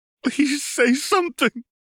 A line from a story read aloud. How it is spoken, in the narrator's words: sobbing and crying out